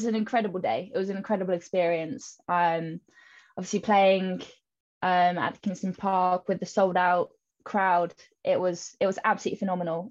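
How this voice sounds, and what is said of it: English accent. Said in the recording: “you have got an English accent”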